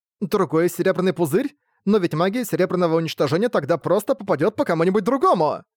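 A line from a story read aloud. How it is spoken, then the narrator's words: Sharp exclamation. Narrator (Russian): Резко воскликнула Элен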